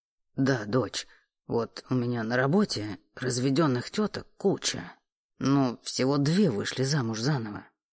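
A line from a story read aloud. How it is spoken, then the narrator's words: Deep supportive voice. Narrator (Russian): пробасил отец, старающийся поддержать жену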